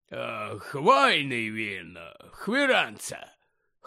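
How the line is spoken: Hoarse. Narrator (Ukrainian): хрипло сказав Гегрід

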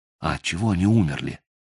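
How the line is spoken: Quiet question. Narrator (Russian): тихо спросил Мотыга

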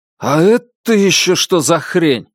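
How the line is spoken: Unguarded exclamation. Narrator (Russian): забывшись, воскликнул Далглиш

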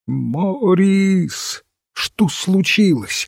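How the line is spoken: Alarmed exclamation. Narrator (Russian): воскликнула леди Аутрем

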